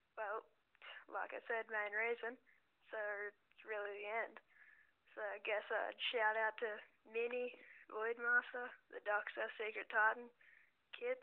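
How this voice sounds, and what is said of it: Australian accent. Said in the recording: “from Aussie Land ... people are obsessed with hearing my accent”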